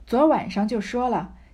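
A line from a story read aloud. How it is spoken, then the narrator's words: Sighing. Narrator (Chinese): 袭人叹道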